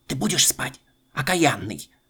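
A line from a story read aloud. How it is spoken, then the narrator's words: Muffled threatening whisper. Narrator (Russian): бабушка снова приглушенным шепотом грозится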